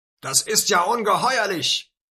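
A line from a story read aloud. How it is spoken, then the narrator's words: Angry calling out. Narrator (German): rief Abu Sufyan mit zorniger Miene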